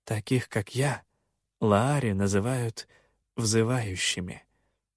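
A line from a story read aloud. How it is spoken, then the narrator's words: Quiet. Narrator (Russian): тихо проговорила она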